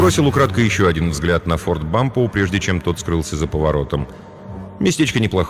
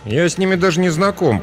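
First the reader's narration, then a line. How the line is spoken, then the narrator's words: Grumbling. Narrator (Russian): проворчал он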